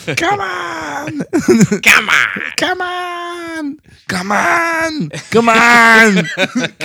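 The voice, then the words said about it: Imitates another person's voice. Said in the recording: “I don't know why these accents are coming out ... Everybody just turns into Arnold ... really good, Arnold.”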